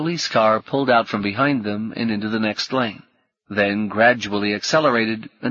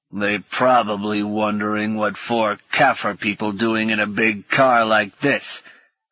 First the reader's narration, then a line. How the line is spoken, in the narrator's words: her father growled